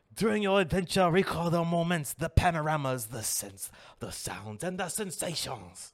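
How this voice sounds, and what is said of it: Put-on French accent, drifting. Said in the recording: “that French accent. That was probably not very well ... you started going into like an Asian accent there, like midway”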